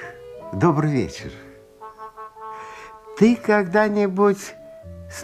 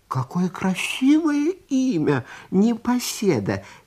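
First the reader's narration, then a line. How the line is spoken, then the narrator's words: Cheerful, lamb. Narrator (Russian): весело отозвался ягненок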